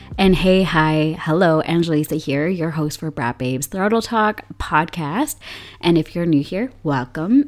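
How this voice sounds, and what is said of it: Extremely low voice, cracking in and out. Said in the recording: “I have been quite sick, quite ill for a few weeks now. And my voice is trying to recover. And that is why I have this extremely low voice, and it might be cracking in and out”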